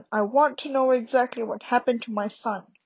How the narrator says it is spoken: roared Uncle Vernon

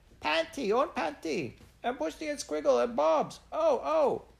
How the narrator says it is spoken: the lamb saw them, and plunged towards the carpet, shrieking

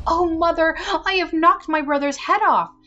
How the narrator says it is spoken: Marlene was terrified and began crying and screaming and ran to her mother and said

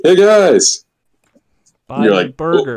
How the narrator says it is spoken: yelling

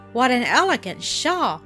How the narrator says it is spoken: exclaimed

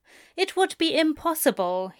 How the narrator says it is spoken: he sighed

